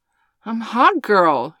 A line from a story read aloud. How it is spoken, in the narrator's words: cried